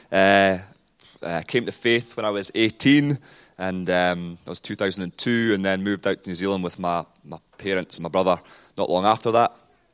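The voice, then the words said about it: Heavy New Zealand accent. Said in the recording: “I've got a heavily Kiwi-ized accent now, but I'm obviously, as I mentioned, originally from Scotland”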